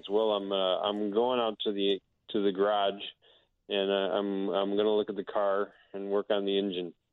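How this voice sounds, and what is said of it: Nasal Midwestern accent, strong R sounds. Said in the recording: “emphasize the nasality ... that's necessary for having a true Midwestern accent ... they sound like pirates with head colds because they also really emphasize their R sounds ... I can hear that. I can hear it a little bit up in the upper part.”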